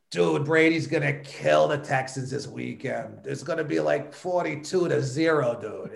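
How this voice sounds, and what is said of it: Bad fake Boston accent. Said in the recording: “I've tried a bad Boston accent, but I never tried to do it for real ... it never sounded that authentic”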